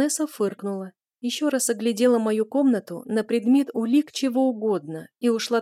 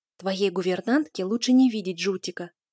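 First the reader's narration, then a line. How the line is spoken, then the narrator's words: Whispered remark. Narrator (Russian): заметила я шепотом, предполагая, что там может подслушивать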